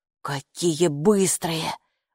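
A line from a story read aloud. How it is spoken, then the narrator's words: Breathless exhale. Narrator (Russian): выдохнул Капо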